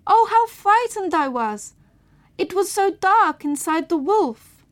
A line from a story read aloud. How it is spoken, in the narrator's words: The little girl cried